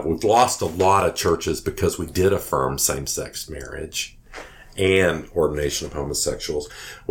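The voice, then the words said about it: Texas accent. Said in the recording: “I'm from Texas. ... by the accent. I mean, you're trying to figure out the accent,”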